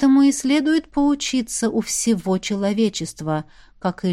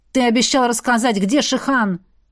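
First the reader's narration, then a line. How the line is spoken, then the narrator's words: Loud unsurprised reproach. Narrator (Russian): упрекнула она громко, ничуть не удивляясь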